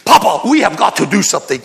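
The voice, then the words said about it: Imitated Kenyan accent. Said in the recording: “this kid that God brought into my world from Kenya ... He's got his accent.”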